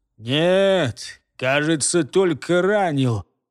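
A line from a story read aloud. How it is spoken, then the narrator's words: Disappointed hiss. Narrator (Russian): разочарованно прошипел второй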